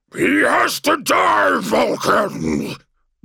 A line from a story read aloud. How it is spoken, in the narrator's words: bellowed the creature that had been Magnus the Red